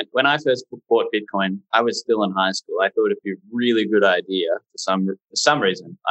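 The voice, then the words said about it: Australian accent. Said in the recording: “I'm obviously from Australia. You can probably hear that in my voice.”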